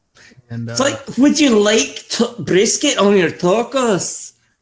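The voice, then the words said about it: Put-on Scottish accent. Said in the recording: “Well, no, that was Scottish accent.”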